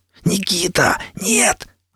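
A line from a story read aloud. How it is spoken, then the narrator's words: Hissed. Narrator (Russian): зашипел я вслед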